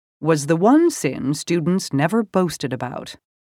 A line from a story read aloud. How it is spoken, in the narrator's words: he said dryly